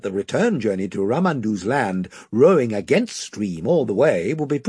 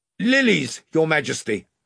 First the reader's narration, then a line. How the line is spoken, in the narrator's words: shouted Ranulph